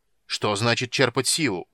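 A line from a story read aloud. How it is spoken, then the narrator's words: Angry roar. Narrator (Russian): сердито взревел Карамон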